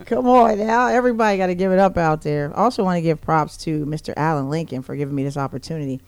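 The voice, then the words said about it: Raspy, slightly hoarse voice. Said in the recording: “My voice is a little bit raspy. A couple kids coughed on me yesterday, and now I'm raspy”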